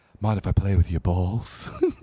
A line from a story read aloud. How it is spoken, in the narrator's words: She breathed